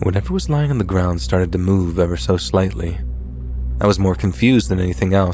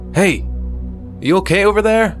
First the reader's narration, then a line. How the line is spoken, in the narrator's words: my husband shouted